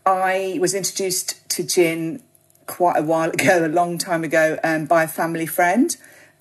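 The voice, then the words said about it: British accent. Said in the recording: “you can tell from my accent that I'm not Australian. So I was living in the UK, where I'm from”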